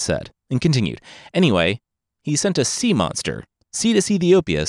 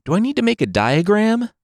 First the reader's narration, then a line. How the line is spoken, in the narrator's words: Poseidon scoffed